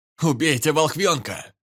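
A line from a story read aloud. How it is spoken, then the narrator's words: Shouted. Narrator (Russian): крикнул один из них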